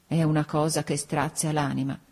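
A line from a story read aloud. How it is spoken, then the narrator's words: Tearful murmur. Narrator (Italian): La cugina, con gli occhi rossi, mormorava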